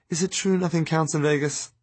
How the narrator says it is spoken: she whispers to me

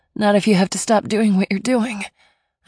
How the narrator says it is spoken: I moaned

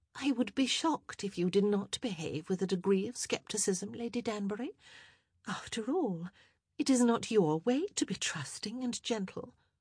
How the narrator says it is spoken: Cressida's blue eyes blazed with fury, but she quickly regained control of her emotions and said

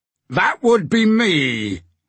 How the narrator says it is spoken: a deep voice thundered back

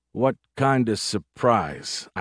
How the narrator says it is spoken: I asked slowly in growing horror

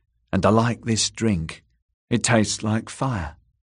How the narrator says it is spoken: whispered Gilly

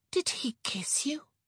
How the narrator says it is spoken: She breathed

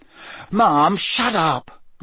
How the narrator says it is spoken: Ron yelled

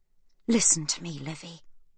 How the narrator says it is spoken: Sibby whispers urgently

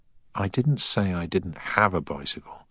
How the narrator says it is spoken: sighed Deakins

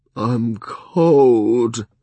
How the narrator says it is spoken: Thick moaned

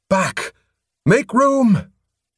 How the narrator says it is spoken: Abruptly, Morum shouted

